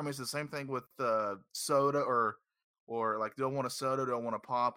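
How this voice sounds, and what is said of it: Southern US accent. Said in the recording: “Down here in the South, I don't know if you can tell from my glorious accent”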